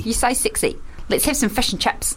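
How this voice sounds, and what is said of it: Put-on New Zealand accent. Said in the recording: “New Zealand is like Australia, but it's a bit more clipped in the vowels. ... I think we've exhausted our New Zealand accent.”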